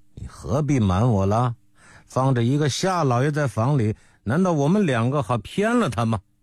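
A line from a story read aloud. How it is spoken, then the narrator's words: Laughing. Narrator (Chinese): 李壮笑说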